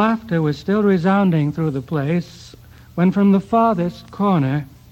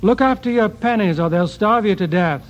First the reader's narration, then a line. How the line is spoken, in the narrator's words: from the other side of the hall, Voltaire shouted